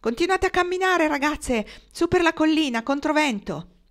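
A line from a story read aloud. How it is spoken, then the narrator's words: Shouted. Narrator (Italian): gridò loro, come Hiram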